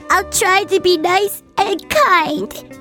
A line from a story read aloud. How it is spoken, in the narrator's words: sobbed Anne